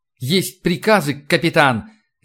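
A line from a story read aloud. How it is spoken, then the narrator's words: Ringing voice. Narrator (Russian): звенящим голосом ответил Сергей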